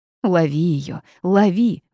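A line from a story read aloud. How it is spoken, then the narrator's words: Sudden shout. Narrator (Russian): внезапно закричал птиц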